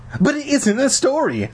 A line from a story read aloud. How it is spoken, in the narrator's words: I cried